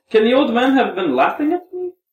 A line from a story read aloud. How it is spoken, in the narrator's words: Mitya exclaimed